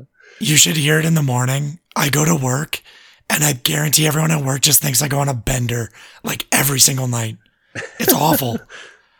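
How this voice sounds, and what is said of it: Raspy, hoarse voice. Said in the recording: “That voice... is so man. Raspy. Oh my God, that's the worst it's ever been... My voice is just mangled.”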